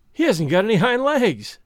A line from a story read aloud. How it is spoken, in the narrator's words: he called out